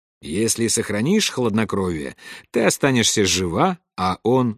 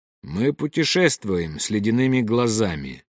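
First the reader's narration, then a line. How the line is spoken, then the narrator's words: Plain. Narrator (Russian): ответил Нездешний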